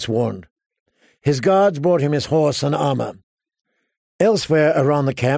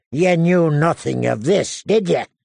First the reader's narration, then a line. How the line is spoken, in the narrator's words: he said to John coldly